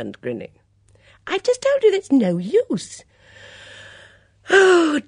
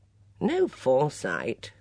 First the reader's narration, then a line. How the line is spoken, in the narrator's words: murmured Edmund